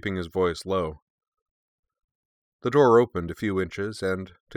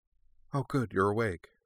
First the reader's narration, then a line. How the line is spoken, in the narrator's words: she said softly